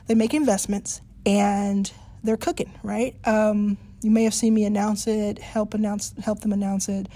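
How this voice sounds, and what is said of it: Slightly off, unwell-sounding voice. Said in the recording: “I'm a little bit under the weather, so I know my voice is a little weird”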